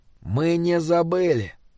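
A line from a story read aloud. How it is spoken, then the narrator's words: Quiet but carrying voice. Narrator (Russian): сказал он тихо, но его голос донесся даже до спящего Годвига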